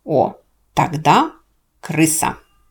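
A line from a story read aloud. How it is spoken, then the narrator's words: Quick retort. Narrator (Russian): Быстро нашлась хозяйка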